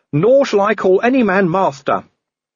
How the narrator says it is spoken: said young Igor sulkily

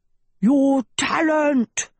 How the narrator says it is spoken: roared Sheba

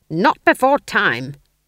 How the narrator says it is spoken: snapped

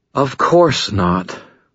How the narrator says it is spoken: Lara said, her voice tired

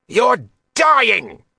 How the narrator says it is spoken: Roth shouted

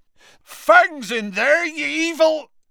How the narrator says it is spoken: Hagrid bellowed

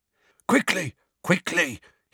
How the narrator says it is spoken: a wheezy voice mutter

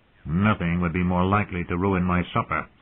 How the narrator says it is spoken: the dwarf said dryly

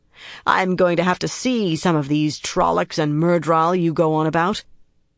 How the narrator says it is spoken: she growled

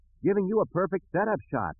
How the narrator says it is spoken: Luke yelled back

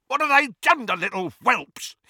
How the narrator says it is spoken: He screamed

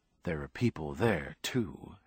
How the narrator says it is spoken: Heather said grimly

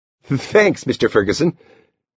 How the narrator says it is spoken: Laughing, Hoppy said with a stammer

